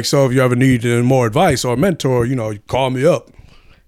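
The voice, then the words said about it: Imitates a cartoon character's voice. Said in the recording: “Is that your impression, Black Lightning? That's my impression.”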